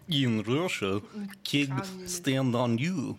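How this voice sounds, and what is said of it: Put-on Russian accent, vaguely Eastern European. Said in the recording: “Can you do a Russian accent? ... Yeah, that was pretty good. ... I feel like that was more Ukrainian. ... vaguely Eastern European.”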